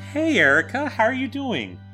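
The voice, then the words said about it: Very happy, cheerful tone. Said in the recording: “you sound so happy”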